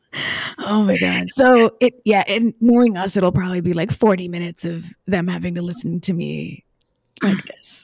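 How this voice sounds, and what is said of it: Raspy, hoarse voice. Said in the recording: “It has given me laryngitis, and I apologize to everybody for my weird voice. ... All raspy.”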